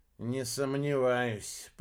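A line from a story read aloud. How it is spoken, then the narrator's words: Grumble. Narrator (Russian): проворчал губастый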